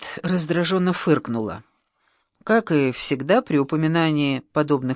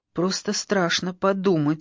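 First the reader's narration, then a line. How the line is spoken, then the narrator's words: Plain. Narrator (Russian): сказала я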